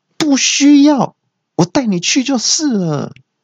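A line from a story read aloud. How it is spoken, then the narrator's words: Policeman's shout. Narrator (Chinese): 警察就大叫说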